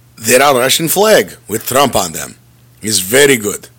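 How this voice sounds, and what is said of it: Put-on Russian accent. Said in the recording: “Speaking of Russia, and I will do this accent until this part of the story is completed ... I'm going to stop because otherwise I'll keep going the whole show like that”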